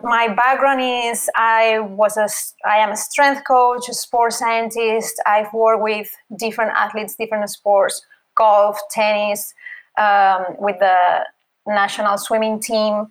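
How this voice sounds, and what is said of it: Spanish accent. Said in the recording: “I'm from Spain, as you can see by the accent.”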